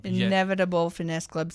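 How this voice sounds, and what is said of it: Put-on French accent. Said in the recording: “that's the French accent.”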